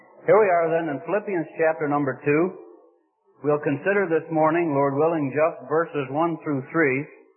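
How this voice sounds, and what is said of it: Midwestern accent, nasal twang. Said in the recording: “this general tone of voice, this Midwestern nasal twang that I have”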